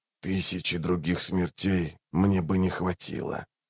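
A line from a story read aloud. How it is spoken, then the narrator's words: Very quiet whisper. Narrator (Russian): прошептал он так тихо, что услышали только Рейк и Барук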